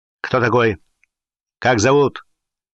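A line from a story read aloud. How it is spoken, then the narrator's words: Sharp crackling voice. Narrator (Russian): хлестким, трескучим голосом спросил его Гуров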